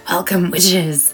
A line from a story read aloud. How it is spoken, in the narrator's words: Nora hissed